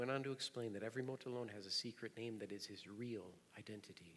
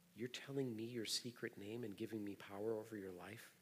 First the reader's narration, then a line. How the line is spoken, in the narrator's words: Bruce said